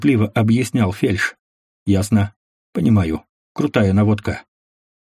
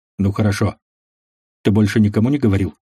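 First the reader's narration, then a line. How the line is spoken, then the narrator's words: Plain. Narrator (Russian): спросил Барт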